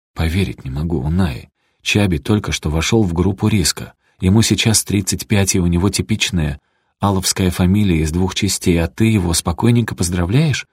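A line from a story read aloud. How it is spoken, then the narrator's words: Furious whisper in ear. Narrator (Russian): яростно прошептала мне на ухо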